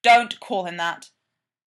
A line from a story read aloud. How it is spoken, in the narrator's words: Derek snaps